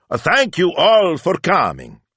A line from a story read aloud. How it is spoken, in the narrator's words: he shouted